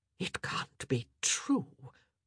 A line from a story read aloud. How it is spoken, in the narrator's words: Lady Danbury finally whispered, her mouth slack